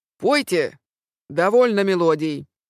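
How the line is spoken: Commanding bark, man. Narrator (Russian): гаркал он своим властным голосом

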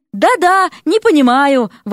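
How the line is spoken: Shouting. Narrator (Russian): Вася закричала

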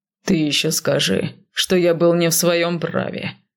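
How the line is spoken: Inhuman growl. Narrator (Russian): нечеловечески прорычал мужчина

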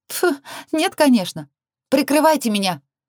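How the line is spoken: Shouted over intercom. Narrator (Russian): Прокричала я в переговорник

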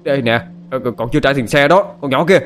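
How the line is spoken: Man shouting. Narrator (Vietnamese): Ông tài xế hét lên

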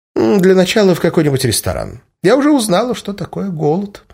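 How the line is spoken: Cheerful. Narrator (Russian): весело сообщила бывшая Иволга

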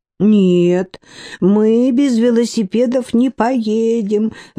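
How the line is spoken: Sobbing harder, girls. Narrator (Russian): зарыдали девчонки пуще прежнего

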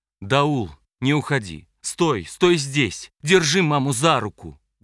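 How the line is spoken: Loud command over noise. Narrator (Russian): громко велела она, пересиливая перестук все убыстряющихся, пробегающих мимо колес

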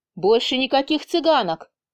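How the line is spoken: Sudden declaration. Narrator (Russian): внезапно заявил

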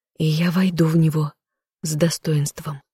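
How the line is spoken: Humble sigh. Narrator (Russian): смиренно вздохнув

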